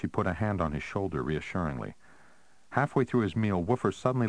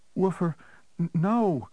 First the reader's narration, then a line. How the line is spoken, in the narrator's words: Janet cried